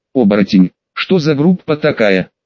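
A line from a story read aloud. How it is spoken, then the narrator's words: Snorting scoff. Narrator (Russian): хмыкнул Джим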